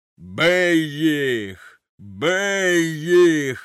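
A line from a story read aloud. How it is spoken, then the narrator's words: Thunderous roar. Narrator (Ukrainian): ревів він громовим голосом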